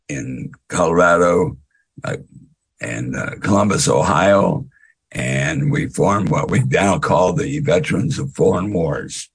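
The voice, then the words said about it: Raspy, hoarse voice. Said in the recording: “I do apologize for my voice. ... a raspy voice.”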